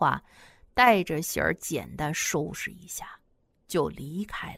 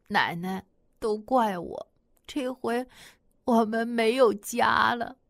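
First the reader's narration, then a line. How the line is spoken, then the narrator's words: Crying. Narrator (Chinese): 喜儿哭着对马奶奶说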